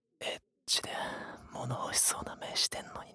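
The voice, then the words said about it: Whispering close to the ear. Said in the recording (Japanese): “こんな風に耳元でささやかれても”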